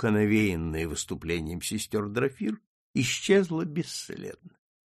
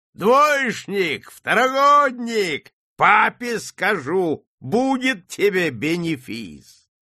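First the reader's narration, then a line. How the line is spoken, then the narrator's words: Gleeful shouting after someone. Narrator (Russian): Купец Ангелов радостно кричал вслед опозоренному гимназисту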